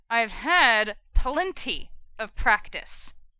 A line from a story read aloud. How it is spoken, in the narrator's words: Jared said through gritted teeth